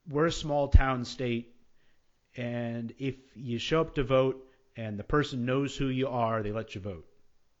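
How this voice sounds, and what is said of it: Put-on North Dakota accent. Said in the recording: “you said that with a North Dakota accent. That was very nice.”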